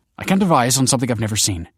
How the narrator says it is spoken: she snapped

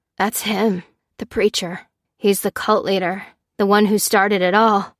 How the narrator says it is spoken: gasped Charlie

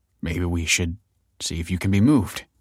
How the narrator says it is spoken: he said uneasily

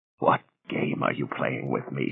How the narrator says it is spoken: She whispered huskily

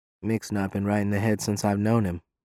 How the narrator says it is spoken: Fair mutters

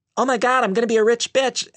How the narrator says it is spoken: Anna exclaimed

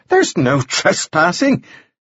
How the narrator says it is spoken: Clinch cried

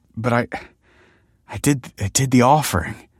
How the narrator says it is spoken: stammered

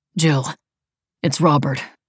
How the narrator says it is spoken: he said, his voice seeming heavier now and much further away

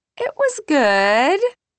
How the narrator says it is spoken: she says, her voice too high

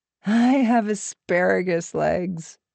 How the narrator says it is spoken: said, making herself laugh

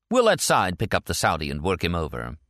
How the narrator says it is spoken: she added with a harsh laugh

